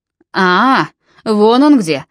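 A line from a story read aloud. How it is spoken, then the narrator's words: Booming. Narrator (Russian): прогремел Нимрод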